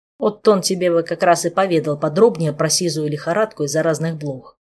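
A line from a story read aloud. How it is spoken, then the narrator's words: Grumbling. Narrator (Russian): проворчал Кантор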